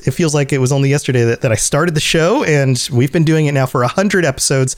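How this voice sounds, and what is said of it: Slightly hoarse voice. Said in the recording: “hear it in my voice a little bit. I'm a little bit hoarse. I've got a little bit of a sore throat”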